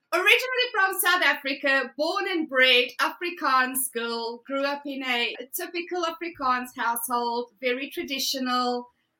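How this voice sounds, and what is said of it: South African accent. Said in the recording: “You have a great accent.”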